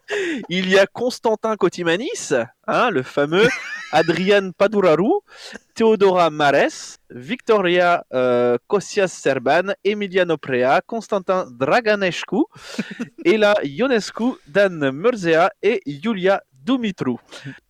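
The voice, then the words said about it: Put-on Romanian accent reading names. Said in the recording (French): “tu as travaillé ton accent roumain”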